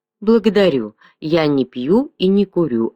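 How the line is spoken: Plain. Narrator (Russian): ответил Готфрид

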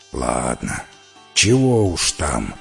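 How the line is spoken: Grumbling mink creature. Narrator (Russian): проворчал норка-зверь

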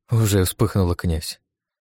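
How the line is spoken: Duchess's grim smirk. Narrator (Russian): мрачно усмехнулась герцогиня

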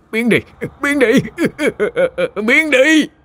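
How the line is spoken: Terrified screaming. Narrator (Vietnamese): Như thể quá sức tưởng tượng, ông Sang kinh hãi gào lên

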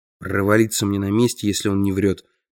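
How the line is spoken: Mutter. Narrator (Russian): пробормотал я

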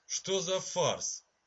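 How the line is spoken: Irritated grumble. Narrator (Russian): раздраженно проворчал лорд Аттенбери

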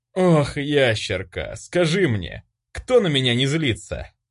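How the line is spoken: Weary sigh. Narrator (Russian): Устало выдохнул я

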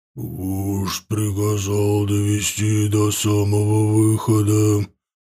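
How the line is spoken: Booming troll voice. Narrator (Russian): прогудел огненный тролль

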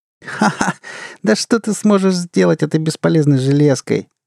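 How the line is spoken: Laughing woman. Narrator (Russian): рассмеялась она

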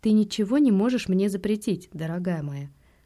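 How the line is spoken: Calm reply. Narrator (Russian): спокойно ответил я

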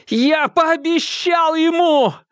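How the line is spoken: Roaring, unfamiliar new tone. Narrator (Russian): взревел в голосе появились доселе незнакомые нотки

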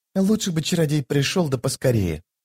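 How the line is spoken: Whisper. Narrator (Russian): прошептала через некоторое время Дымка

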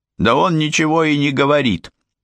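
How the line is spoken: Barked reply. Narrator (Russian): а та гаркнула в ответ

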